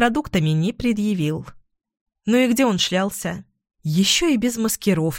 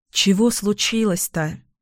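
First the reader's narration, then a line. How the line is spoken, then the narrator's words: Sighing. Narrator (Russian): вздохнула я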